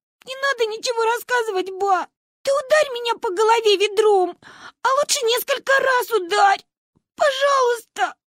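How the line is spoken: Loud sobbing. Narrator (Russian): Мы зарыдали в голос

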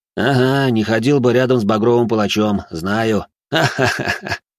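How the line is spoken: Ringing laughter. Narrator (Russian): Лекарь снова заливисто засмеялся

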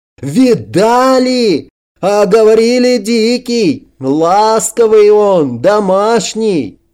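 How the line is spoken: Triumphant shout. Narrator (Russian): Кирпич торжествующе выкрикнул вслед кораблю

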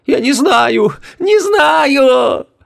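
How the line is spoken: Sobbing. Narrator (Russian): Рыдала она

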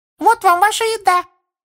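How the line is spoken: Squeaky elf voice. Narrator (Russian): пискнул эльф из-под локтя Гарри

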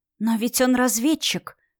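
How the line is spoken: Disbelieving inner whisper. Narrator (Russian): вновь шептал внутренний голос, не желая поверить в реальность

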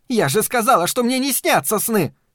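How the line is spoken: Shrill hysterical scream. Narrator (Russian): Пронзительно, даже истерично закричала она

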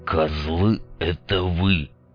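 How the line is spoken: Hissed through clenched teeth. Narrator (Russian): Процедил сквозь зубы резаный

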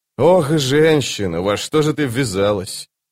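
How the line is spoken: Sighing. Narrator (Russian): Она вздохнула

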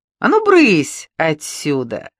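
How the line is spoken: Laughing. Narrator (Russian): засмеялась Маруся

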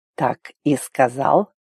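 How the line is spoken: Quiet rustling whisper. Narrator (Russian): Тихо прошелестел

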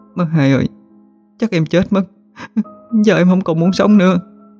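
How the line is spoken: Bursting into sobs. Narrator (Vietnamese): Tú ôm chầm lấy cô rồi bật khóc nức nở

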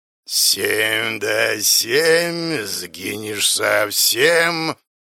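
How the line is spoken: Growling monster. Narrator (Russian): Рычащее чудовище

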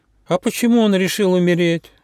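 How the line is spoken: Sad question, young hedgehog. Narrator (Russian): грустно спросил ежонок

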